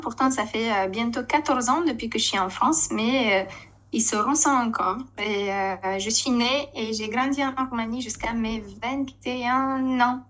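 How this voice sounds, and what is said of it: Foreign accent in French. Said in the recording (French): “cet accent, il vient de quel coin de notre belle planète ... tout le monde me demande d'où vient mon accent”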